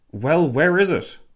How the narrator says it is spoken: Lloyd George nearly barked

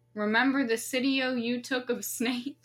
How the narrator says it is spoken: Snape laughed again

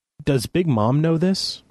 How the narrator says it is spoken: I stammered

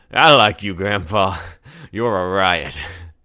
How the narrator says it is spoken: the man said, his words slurred by a long night of drinking

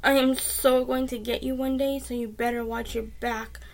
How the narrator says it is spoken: Sean cried

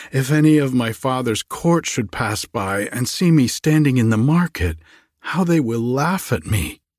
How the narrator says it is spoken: sighed she

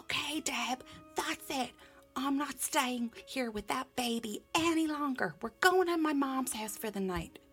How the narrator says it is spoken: He yelled up the stairs to me

